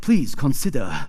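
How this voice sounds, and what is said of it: Mock Japanese accent. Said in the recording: “That's my best Japanese accent ... But it was pretty good.”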